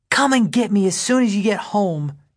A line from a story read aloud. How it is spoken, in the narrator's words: Teresa hisses